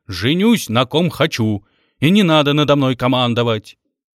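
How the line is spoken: Loud barking shout. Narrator (Russian): Володя гаркнул ей вслед

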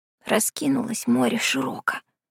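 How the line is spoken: Whispered. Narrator (Russian): шептала всякий раз Варька

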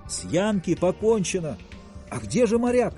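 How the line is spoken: Shouted. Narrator (Russian): крикнул один из пассажиров

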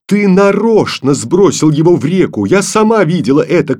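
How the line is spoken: Angry shout. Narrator (Russian): крикнула Таня сердито

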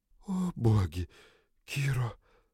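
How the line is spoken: Breathed out. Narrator (Russian): выдохнула Триш

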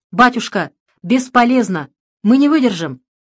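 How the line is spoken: Shouted after someone. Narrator (Russian): Комаринский не вынес пурги и бьющего прямо в лицо снега и крикнул вслед быстро бегущему отцу Александру

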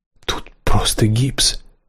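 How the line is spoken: Whisper. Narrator (Russian): прошептала

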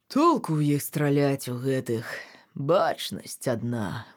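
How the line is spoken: Father's sigh. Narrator (Belarusian): уздыхнуў тата

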